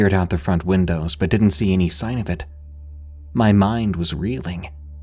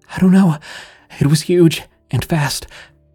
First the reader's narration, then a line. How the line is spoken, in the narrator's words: Amanda replied shakily